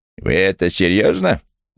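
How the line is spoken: Menacing question. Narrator (Russian): грозным тоном спросила Хетти

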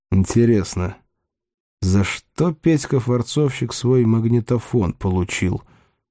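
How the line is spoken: Thoughtful drawl. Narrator (Russian): задумчиво протянул он

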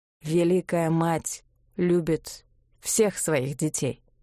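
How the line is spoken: Slow. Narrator (Russian): сказал он медленно

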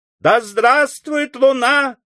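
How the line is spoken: Crowd shouting in unison. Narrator (Russian): крикнул в один голос весь пушечный клуб

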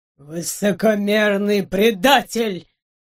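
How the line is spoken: Dull, muffled voice. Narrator (Russian): Глухо произнес доктор

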